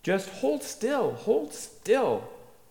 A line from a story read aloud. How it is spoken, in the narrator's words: I bawled up